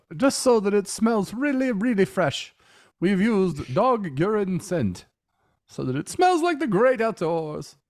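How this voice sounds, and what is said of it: Weird put-on accent. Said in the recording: “I don't know why I'm talking in this weird accent.”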